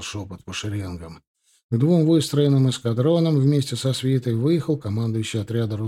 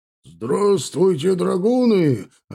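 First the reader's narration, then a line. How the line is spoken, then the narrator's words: Deep bass shout. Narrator (Russian): прокричал он густым басом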